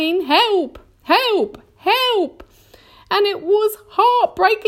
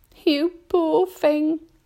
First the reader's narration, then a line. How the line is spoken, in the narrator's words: she murmured